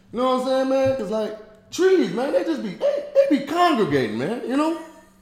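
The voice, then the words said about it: Imitates another person's voice. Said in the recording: “I can do Tony Baker. ... All right, Tony Baker. Here's Tony Baker.”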